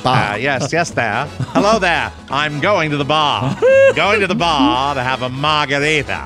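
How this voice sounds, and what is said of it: Jack Cassidy's pretentious mid-Atlantic accent. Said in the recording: “Jack in his phony baloney, mid-Atlantic pretentious accent, was saying bar ... Jack Cassidy!”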